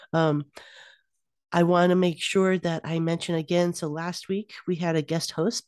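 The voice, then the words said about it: Deeper, congested voice from a cold. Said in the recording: “my voice is a little deeper than it normally is, thanks to a cold”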